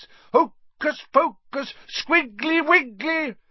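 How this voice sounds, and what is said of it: Fierce voice. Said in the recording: “in a fierce voice.”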